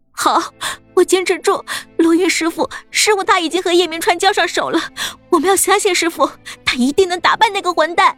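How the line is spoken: Tearful voice. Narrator (Chinese): 杨小兵带着哭腔

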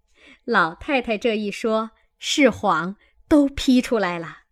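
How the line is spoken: Crowd laughing. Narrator (Chinese): 众人都笑说

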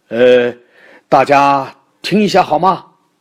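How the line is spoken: Sudden loud shout. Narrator (Chinese): 爸爸突然大声叫道

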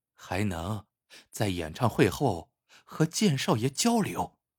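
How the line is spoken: Hushed voice. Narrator (Chinese): 他压低声音说

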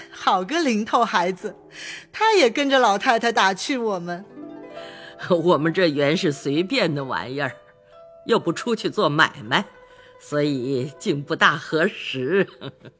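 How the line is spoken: Delighted laughing. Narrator (Chinese): 李婶、薛姨妈喜得都笑道

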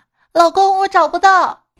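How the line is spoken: Calling out. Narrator (Chinese): 我妈就跟我爸喊

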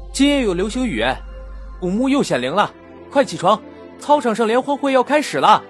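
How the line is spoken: Student shouting. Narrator (Chinese): 有学生大喊

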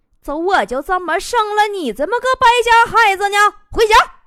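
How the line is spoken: Shouted. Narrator (Chinese): 大妈对醉汉喊了一声

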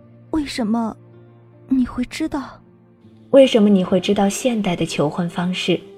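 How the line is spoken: Trembling question. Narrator (Chinese): 颤声问道

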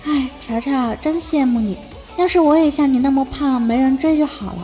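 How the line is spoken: Sighing. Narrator (Chinese): 又唉声叹气的说

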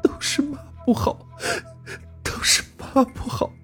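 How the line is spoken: Sobbing mother. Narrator (Chinese): 春香 大哭着 眼泪鼻涕流道

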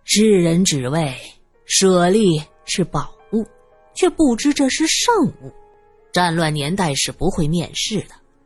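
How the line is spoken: Sighing. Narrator (Chinese): 朗月叹了口气

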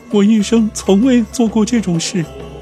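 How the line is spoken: Crying. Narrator (Chinese): 卡马尔哭道

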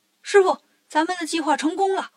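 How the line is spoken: Shouting. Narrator (Chinese): 悟空喊

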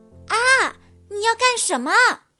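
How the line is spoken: Scream. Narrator (Chinese): 狐狸小姐尖叫道

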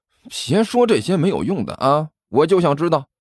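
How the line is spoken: Mournful whiny question. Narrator (Chinese): 尼采 哭丧着脸问道

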